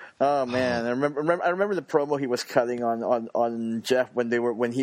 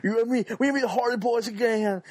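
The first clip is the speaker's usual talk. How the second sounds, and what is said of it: Bad put-on Southern accent. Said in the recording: “best Southern accent I've ever heard ... it's pretty bad, huh?”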